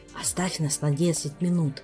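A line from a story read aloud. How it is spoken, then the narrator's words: Whispered request. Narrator (Russian): шепотом попросил Амаргу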